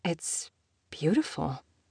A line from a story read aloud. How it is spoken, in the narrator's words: she whispered